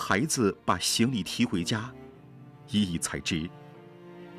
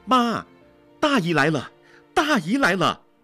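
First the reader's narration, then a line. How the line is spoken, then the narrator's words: Loud shout. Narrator (Chinese): 大声喊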